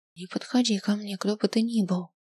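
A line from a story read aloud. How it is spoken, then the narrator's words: Whisper. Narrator (Russian): шепнула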